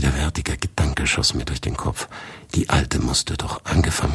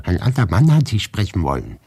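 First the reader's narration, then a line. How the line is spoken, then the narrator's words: Calling out. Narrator (German): rief Maria Wassiljewna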